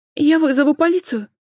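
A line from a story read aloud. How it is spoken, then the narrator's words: Frightened threat from above. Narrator (Russian): Испуганно пригрозили сверху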